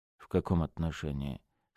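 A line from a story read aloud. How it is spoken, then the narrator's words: Wary question. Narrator (Russian): спросил он настороженным голосом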